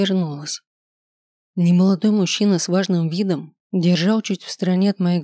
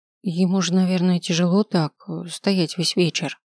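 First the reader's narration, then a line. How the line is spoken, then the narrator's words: Muttered. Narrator (Russian): пробормотала я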